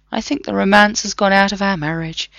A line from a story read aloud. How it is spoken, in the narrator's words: John said mournfully